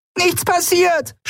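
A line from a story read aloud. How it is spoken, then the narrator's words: Shouting. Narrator (German): schrie sie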